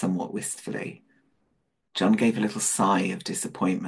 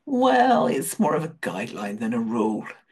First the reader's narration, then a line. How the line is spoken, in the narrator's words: Rodney said with a chuckle